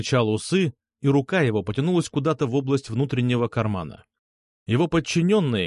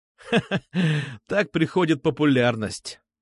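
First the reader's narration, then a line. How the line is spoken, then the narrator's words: Laughing. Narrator (Russian): засмеялся я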